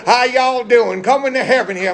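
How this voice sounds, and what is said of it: Put-on Southern drawl. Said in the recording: “he's got that southern draw accent ... that southern, just that southern, don't you like that southern draw? ... don't you love that accent?”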